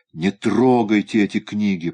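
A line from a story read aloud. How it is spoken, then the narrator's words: Moan. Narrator (Russian): простонал Шик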